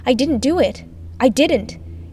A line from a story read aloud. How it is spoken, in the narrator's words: I shouted